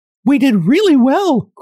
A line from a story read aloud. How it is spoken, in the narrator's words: cried the fairy in a pleased voice